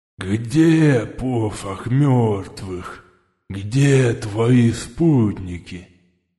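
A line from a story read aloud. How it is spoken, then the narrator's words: Lisping growl, losing temper. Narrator (Russian): прорычал начинающий выходить из себя шепелявый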